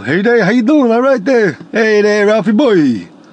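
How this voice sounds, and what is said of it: Low East Coast Norton impression. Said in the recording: “East Coast ... I was kind of lower ... I kind of sounded like Norton from The Honeymooners, or like Barney Rubble”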